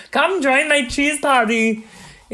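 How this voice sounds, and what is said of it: Put-on Swiss German-style accent. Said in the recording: “That was your Swiss accent? ... That's Arnold, just like Arnold doing a Swiss person.”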